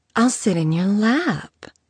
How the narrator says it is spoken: she purred

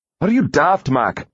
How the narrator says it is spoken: He said sharply

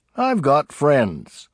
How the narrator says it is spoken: he would say cheerfully

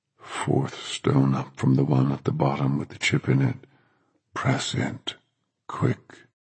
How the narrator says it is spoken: In a strange, deep voice that was nothing at all like his usual voice, but to Dennis that voice sounded weirdly familiar, Thomas said

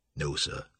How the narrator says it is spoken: Toby said softly

